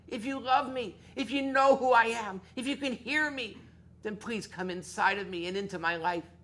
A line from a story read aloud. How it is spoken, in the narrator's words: cried